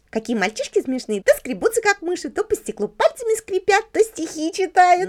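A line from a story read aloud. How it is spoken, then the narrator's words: Giggling. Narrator (Russian): Леночка стала хихикать и говорить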